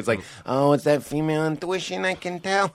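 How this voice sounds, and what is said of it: Put-on New York accent. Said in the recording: “I don't know why I'm doing this voice so much this episode. It's because you guys are from New York.”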